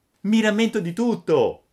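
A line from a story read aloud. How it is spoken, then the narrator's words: Shouting. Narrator (Italian): gridò Pinocchio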